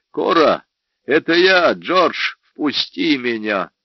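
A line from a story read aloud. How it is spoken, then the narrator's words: Shout through slot. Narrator (Russian): крикнул в щель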